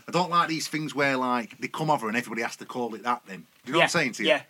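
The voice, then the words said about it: Sheffield accent. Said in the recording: “I can hear you in the street and go, oh, Sheffield lad.”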